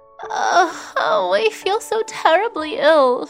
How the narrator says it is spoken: she moaned

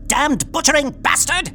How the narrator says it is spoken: It shrieked in the hoarse British accented voice

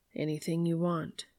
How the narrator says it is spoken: Dean murmurs

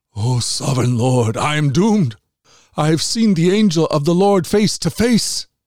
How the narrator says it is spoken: he cried out

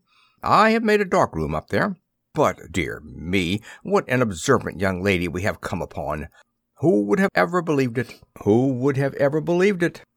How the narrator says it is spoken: He spoke in a jesting tone

